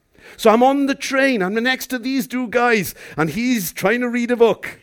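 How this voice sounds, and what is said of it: Welsh accent. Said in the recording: “he noticed my accent ... I'm from the suburban capital of a place called Llandeilo in West Wales ... that's what we do as Welsh people”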